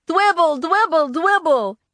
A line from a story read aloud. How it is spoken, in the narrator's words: Sam and Jenny liked the way that sounded because they started to shout